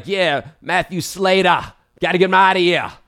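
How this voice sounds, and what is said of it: Poor put-on Boston accent. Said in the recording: “that was a terrible Boston accent”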